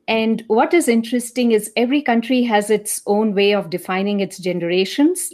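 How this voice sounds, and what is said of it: Indian English accent. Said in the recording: “as you can probably make out from my accent, I'm from India”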